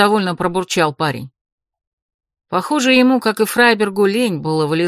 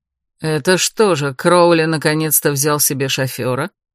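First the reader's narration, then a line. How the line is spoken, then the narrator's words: Smirking snort. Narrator (Russian): хмыкнул Эрик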